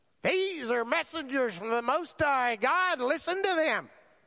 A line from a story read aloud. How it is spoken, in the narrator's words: The young slave girl followed around behind and shrieked